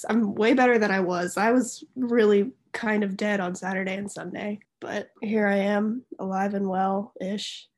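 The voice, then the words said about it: Sick, illness-affected voice. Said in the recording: “Well, I am sick, so that's why my voice sounds like this.”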